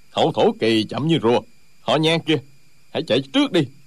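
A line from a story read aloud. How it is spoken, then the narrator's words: Angry fighter. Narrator (Vietnamese): Một trong ba người đang giao đấu tức giận nói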